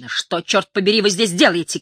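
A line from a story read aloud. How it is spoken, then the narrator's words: Shouted. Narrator (Russian): крикнула она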